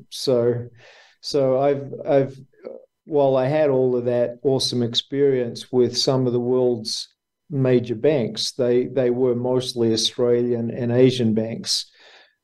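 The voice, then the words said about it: Australian accent. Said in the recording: “someone with an Australian accent”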